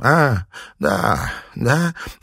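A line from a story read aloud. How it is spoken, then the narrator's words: Hoarse reply. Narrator (Russian): хрипло ответила она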